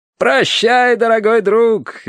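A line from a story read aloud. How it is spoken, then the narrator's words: Cheerful shout. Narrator (Russian): весело выкрикнул Терренс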